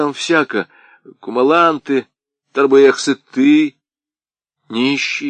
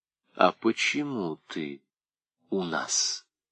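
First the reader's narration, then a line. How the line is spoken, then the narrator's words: Quiet, insinuating question. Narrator (Russian): тихо и вкрадчиво спросил Пепеляев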